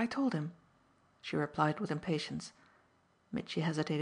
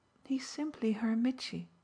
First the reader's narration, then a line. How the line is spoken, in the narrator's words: Nanda kindly mused